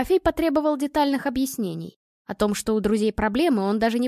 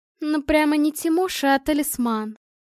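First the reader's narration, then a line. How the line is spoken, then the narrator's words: Sly drawl. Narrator (Russian): ехидно протянула Анна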